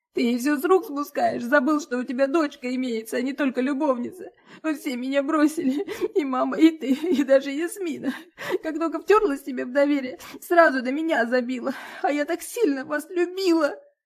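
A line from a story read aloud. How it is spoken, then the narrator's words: Pitiful sobbing. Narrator (Russian): Она всхлипывает так жалостливо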